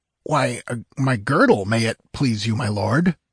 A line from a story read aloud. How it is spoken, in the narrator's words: stuttered the amazed guardsman